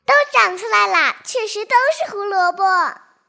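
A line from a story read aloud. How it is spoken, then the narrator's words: Exclaiming. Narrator (Chinese): 小白菜叫道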